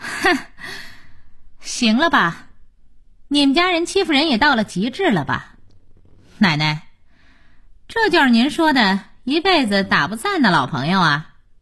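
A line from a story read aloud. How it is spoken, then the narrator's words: Bitter laugh. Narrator (Chinese): 小柳反倒笑了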